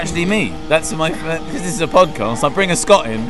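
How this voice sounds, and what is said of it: Usual voice. Nothing is said of it.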